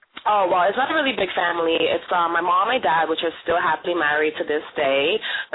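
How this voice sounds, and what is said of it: New York Brooklyn accent. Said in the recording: “can you tell from the accent? ... born and raised in New York City, from Brooklyn”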